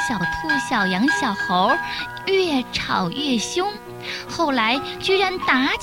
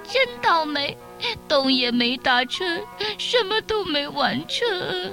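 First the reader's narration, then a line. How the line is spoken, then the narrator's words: Crying. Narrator (Chinese): 小兔一下也哭起来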